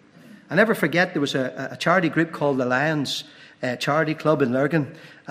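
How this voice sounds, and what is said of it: Northern Irish accent. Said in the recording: “my wee sweet Northern Ireland accent”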